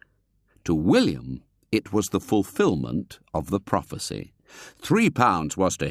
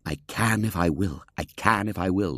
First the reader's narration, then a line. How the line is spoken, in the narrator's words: murmured to himself